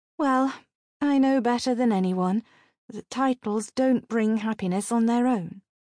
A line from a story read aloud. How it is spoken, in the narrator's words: said Raquel sadly